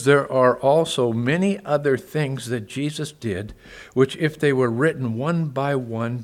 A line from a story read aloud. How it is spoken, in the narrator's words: John says